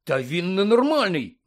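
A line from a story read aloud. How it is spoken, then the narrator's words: Exclaimed. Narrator (Ukrainian): вигукнув Гаррі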